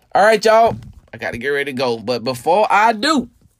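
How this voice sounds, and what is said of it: Preacher-like sermon delivery. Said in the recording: “I sound like a preacher”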